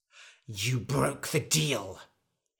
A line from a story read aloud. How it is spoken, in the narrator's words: hissed the wizard